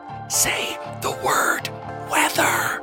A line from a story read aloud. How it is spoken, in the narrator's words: hissing